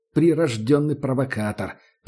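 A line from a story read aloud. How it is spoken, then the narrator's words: Grumbled. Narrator (Russian): пробурчал как-то таджик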